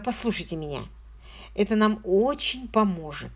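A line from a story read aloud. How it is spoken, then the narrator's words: Soft request. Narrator (Russian): мягко попросил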